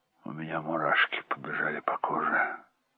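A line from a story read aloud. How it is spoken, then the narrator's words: Hoarse. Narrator (Russian): сказала хрипло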